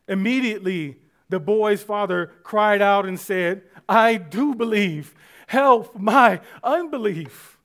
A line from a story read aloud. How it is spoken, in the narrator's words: The dad immediately cried out